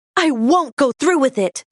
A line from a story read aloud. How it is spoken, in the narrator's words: shouted